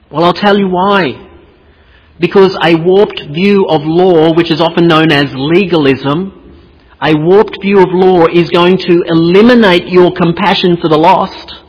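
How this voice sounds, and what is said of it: Speaker with a strange accent. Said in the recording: “funny little bald guy with a strange accent”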